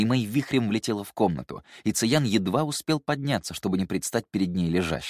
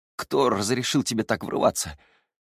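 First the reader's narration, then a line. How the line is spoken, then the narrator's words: Hoarse, restrained anger. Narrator (Russian): хрипло спросил он, с трудом сдерживая порыв процедить слова сквозь зубы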